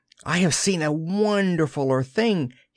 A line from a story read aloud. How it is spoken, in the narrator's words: he cried